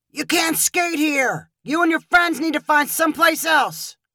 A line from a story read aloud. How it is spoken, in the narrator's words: He pointed and shouted